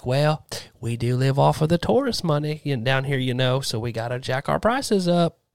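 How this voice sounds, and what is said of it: Put-on Tennessee accent. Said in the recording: “I'm going to do a Tennessee accent. ... This is just a normal accent.”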